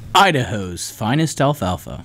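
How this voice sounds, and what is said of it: Polished radio announcer voice. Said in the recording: “He says that so well ... That's my radio voice.”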